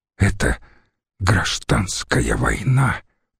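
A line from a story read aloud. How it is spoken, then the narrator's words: Whisper. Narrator (Russian): прошептал Гай Марцелл-младший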